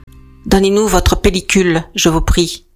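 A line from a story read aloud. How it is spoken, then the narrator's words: Curt order. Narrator (French): ordonne-t-il sèchement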